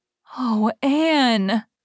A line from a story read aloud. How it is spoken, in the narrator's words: gasped Jane